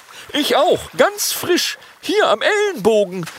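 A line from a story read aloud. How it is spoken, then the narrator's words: Dragon's call. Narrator (German): ruft ein Langnasendrache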